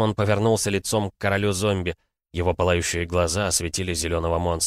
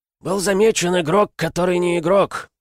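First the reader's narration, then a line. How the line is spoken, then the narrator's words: Growling beastly voice. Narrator (Russian): сказал зомби рычащим, похожим на звериный голосом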